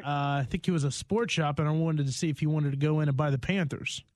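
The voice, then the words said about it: Southern American accent. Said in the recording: “Southern accent of yours, man. It gets the people every time... I don't think they probably hear Southern accents as much.”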